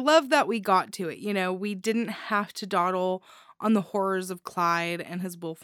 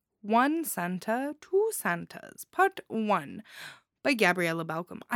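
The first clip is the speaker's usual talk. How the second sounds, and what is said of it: Put-on accent. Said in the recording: “I don't know why I'm putting on this accent. I'm very sorry.”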